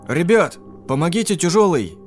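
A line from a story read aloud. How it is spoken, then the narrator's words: Shout. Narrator (Russian): Крикнул наш коллега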